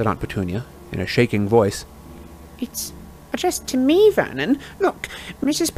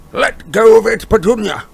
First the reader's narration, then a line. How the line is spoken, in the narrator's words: roared Uncle Vernon